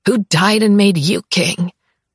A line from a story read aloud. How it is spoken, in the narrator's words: I rasp past my ruined throat